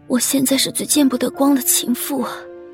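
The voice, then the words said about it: Quiet, murmured whisper. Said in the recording (Chinese): “小声⟧嗫嚅着”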